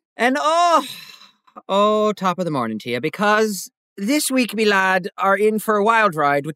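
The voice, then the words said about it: Bad put-on Irish accent. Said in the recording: “if you thought that accent was bad, yikes”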